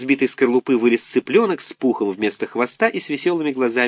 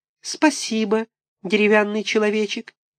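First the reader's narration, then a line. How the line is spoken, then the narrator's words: Tiny squeak inside egg. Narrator (Russian): Внутри яйца пискнул голосок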